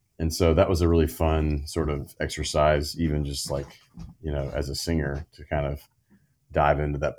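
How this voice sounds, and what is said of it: Low-register talking voice. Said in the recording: “I have this sort of low part of my voice that is in my talking voice. Obviously you can hear it as we have this conversation”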